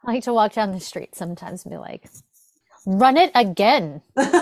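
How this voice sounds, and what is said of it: Usual voice. Nothing is said of it.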